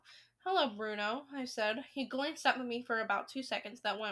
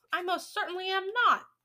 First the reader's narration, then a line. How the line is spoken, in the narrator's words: he shouted